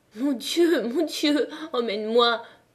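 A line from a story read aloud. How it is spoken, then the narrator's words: Sobbing. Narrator (French): sanglotait Catherine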